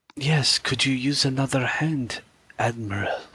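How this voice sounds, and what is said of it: Imitates Chekhov's accented voice. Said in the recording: “Ooh, well done. I wanted to do the Chekhov accent”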